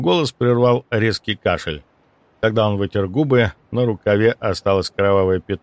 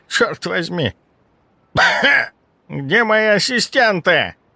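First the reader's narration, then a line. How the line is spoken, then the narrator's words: Irritated muttering. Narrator (Russian): Раздраженно пробормотал он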